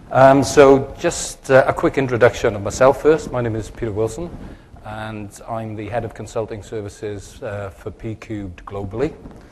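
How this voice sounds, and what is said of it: South Welsh accent. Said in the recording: “my slightly strange accent ... it comes from the valleys of South Wales in the United Kingdom”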